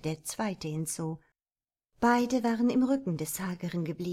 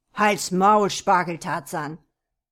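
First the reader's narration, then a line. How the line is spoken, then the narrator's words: Growling. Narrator (German): knurrte jener Kerl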